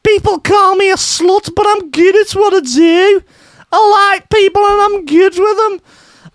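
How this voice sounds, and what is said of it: Put-on Liverpudlian accent. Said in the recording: “what's a Liverpudlian accent?”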